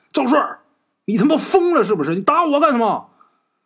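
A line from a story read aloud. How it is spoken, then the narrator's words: Frightened shouting while running. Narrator (Chinese): 钱大牙脸都吓白了，一边跑一边还喊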